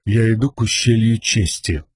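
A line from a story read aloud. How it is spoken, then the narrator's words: Quiet. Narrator (Russian): негромко проговорил Каладин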